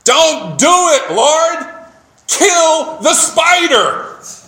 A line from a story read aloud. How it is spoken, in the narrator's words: a young man who had heard this long enough shouted